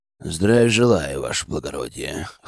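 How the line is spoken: Sullen mumble. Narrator (Russian): хмуро пробурчал он

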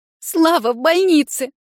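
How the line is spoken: Girl whimpering on phone. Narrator (Russian): проскулила в трубку девушка

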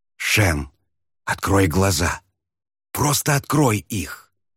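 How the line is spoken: Desperate whisper. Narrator (Russian): отчаянно шептал

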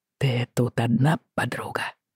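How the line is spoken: Hoarse whisper. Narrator (Russian): спросил он хриплым шепотом

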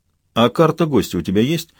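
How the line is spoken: Even colder question. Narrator (Russian): Еще более холодно поинтересовался Петрович

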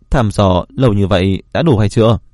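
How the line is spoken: Loud laughter. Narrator (Vietnamese): Long Hoàng cười lớn

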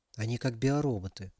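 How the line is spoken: Quiet. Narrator (Russian): тихо сказала Алиса

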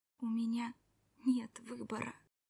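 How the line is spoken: Quiet. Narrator (Russian): тихо произнесла

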